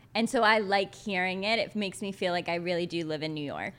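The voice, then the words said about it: New York tri-state area accent. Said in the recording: “you have like a Long Islandish accent ... Everyone actually always thinks I'm from Jersey ... you have like a very tri-state area”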